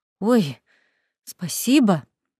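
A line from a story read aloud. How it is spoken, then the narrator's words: Surprised mumble. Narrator (Russian): удивленно пробормотала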